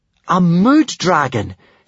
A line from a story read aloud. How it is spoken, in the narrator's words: Hiccup exclaimed in astonishment